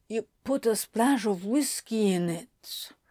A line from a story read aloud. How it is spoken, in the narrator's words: Anthony murmured with an almost wistful smile